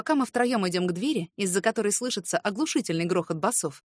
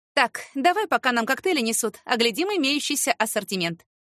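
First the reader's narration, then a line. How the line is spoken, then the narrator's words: Brisk commanding. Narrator (Russian): бодро командует Василина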